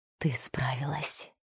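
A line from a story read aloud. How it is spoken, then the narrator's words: Tender whisper. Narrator (Russian): прошептал он, с нежностью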